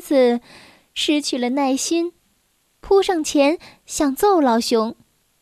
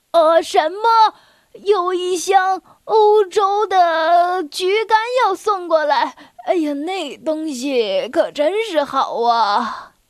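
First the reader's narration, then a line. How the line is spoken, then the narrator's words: Loud. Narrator (Chinese): 老熊大声说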